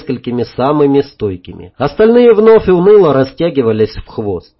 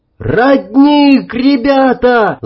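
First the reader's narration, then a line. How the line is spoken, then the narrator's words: Yelling. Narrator (Russian): заорал Сережка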